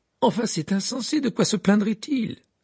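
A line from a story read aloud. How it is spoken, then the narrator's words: Indignant exclamation. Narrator (French): s'écria en tapant du pied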